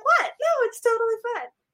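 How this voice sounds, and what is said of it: Pitch jumps way up. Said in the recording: “does the pitch go way up like that always?”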